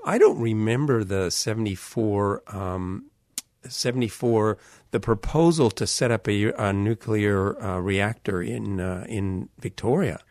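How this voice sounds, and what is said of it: Non-Australian accent. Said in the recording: “You can hear from my accent. I'm not originally from Australia”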